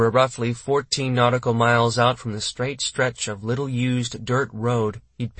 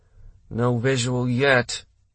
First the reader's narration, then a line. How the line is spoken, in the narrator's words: Brad said tightly